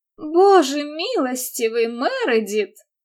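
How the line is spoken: Horrified exclamation. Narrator (Russian): с ужасом воскликнула миссис Фиоренцо

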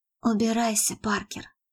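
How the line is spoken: Calm quiet command. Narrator (Russian): спокойно и тихо приказала Мередит

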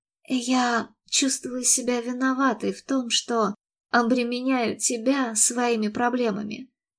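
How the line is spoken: Sighing. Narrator (Russian): вздохнула Мередит

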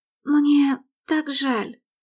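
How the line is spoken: Whisper. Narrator (Russian): прошептала Мередит

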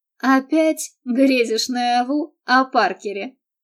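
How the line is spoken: Snide singsong. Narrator (Russian): ехидно пропела она

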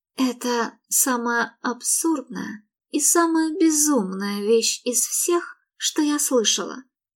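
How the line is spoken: Ominously quiet voice. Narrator (Russian): зловеще тихим голосом бросила Мередит

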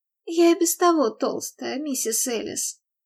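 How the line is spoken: Sighing. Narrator (Russian): вздохнула Мередит

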